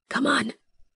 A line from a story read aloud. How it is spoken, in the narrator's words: I whisper to Beibong